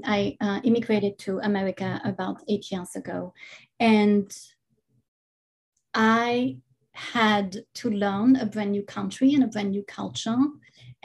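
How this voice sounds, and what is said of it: Non-native foreign accent. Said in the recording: “as my accent might have uh, given away i'm not i'm not from here”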